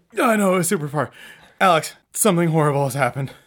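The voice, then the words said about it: Out of breath, panting. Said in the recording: “You're out of breath.”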